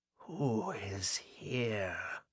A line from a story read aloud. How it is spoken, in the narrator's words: Agatha whispered, and her tone might have withered grass